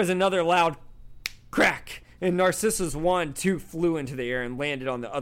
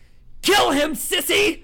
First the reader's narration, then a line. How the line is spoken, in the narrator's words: she shrieked Bellatrix